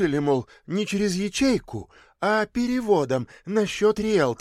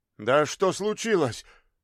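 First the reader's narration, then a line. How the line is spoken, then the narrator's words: Sobbing. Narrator (Russian): Она сквозь всхлипы выдавила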